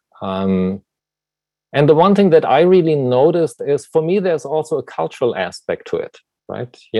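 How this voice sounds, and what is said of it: German accent. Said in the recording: “as you can tell probably from my accent, you know, I was born in Germany”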